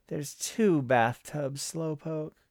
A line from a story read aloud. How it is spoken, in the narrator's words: said, slurring a little